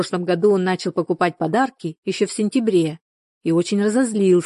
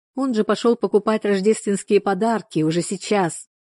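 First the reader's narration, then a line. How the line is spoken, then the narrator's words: Laughing woman. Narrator (Russian): Она рассмеялась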